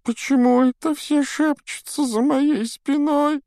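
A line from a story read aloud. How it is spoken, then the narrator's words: Whining. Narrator (Russian): захныкала Миртл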